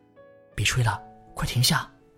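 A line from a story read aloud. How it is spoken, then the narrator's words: Whispered urgently. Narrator (Chinese): 小声在大舅耳边说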